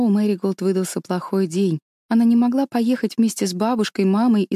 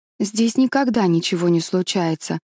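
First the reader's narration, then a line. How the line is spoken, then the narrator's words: Gloomy. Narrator (Russian): мрачно сказала Мэри Голд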